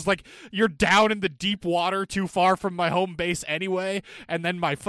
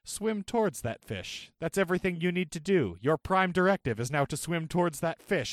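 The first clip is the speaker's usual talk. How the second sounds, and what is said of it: Robotic assistant voice. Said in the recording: “it starts saying in its robot voice”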